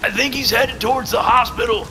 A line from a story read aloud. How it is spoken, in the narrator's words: Furyk shouted over the wind